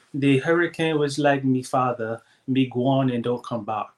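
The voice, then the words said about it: Put-on Jamaican accent. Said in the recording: “I'm going to do it in a Jamaican accent.”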